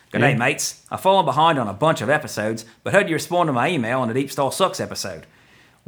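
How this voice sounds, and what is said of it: Put-on Australian accent. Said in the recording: “I'm going to attempt to read it in an Australian accent.”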